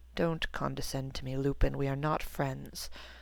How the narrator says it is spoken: Severus murmured

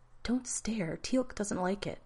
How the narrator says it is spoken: the woman whispered

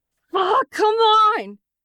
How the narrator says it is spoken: He shouts when it refuses to turn

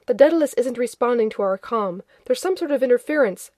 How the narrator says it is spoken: Grodin was saying urgently

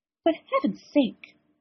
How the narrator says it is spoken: McGonagall said sharply

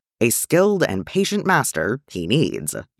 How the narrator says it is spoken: Yoda said

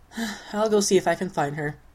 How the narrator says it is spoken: John sighs

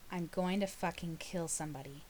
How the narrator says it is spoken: John said grimly

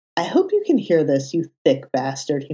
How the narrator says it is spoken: he muttered

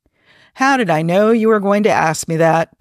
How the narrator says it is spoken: Pike chuckled

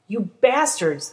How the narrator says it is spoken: the demon screamed

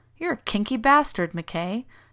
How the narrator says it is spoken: John finally managed

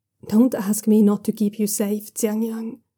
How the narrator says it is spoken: he says, his voice quiet but still fierce

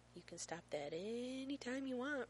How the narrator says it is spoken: Rodney says softly

